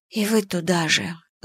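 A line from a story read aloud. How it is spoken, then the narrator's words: Sad whisper. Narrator (Russian): с грустью прошептала я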